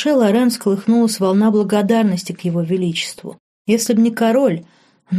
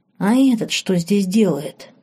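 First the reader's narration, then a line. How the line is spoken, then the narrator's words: Hiss. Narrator (Russian): прошипел Вин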